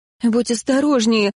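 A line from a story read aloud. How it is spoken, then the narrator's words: Whimpering. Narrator (Russian): захныкала я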